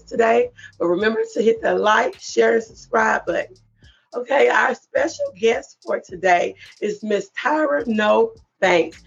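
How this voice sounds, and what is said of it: Hoarse, strained voice. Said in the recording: “excuse my voice. I have a little bit of laryngitis”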